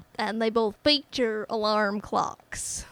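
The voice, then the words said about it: Put-on exaggerated Southern US accent. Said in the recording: “What is this accent? ... I think it was somewhere in the South. ... It sounded like it was in the South. ... But like a gross part of the South. ... it sounded like you were selling peaches on the side of the road.”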